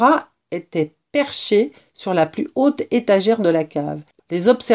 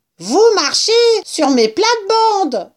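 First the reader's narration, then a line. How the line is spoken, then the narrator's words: Rat screaming. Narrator (French): hurla le rat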